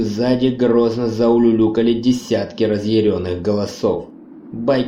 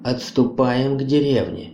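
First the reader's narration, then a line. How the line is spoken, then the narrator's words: Plain. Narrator (Russian): сказал Неп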